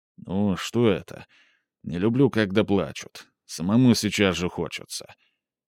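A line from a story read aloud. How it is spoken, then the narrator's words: Quiet. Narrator (Russian): Михаил тихо произнес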